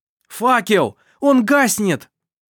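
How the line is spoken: Shouted. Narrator (Russian): закричал Даниэль

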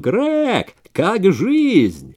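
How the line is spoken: Yelled. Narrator (Russian): Кто-то завопил

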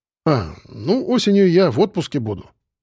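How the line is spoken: Satisfied snort. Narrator (Russian): удовлетворенно хмыкнул Федя

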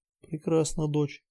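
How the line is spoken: Quiet. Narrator (Russian): тихо сказал Отель

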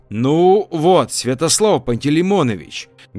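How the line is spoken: Loud hall-filling speech. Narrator (Russian): говорил громко на весь зал Валерий

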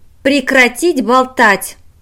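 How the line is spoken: Bark. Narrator (Russian): рявкнула Манда Кузала

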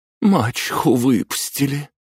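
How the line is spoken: Sobbing. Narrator (Russian): всхлипнула Аделина

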